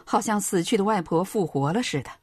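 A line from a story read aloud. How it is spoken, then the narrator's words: Sarcastic. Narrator (Chinese): 老板讽刺的说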